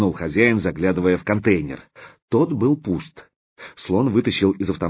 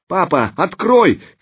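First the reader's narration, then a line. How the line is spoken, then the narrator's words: Hoarse tearful shout. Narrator (Russian): кричала Оксана сорванным, дрожащим от слез голосом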